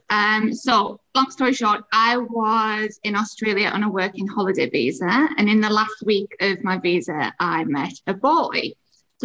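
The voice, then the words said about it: English accent. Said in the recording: “this is another English accent for you.”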